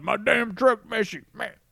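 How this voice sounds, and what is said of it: Imitates another person's voice. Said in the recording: “It's a good impression of Jerry.”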